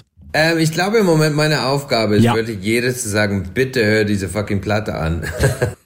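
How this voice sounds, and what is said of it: German with an Irish accent. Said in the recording (German): “einen irischen Akzent”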